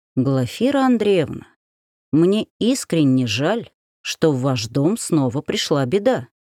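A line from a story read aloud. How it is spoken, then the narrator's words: Plain. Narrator (Russian): сказал священник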